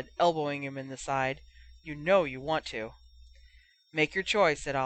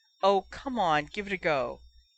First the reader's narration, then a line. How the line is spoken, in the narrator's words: Cole pleaded